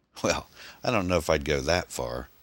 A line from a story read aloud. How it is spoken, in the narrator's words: Tom chuckled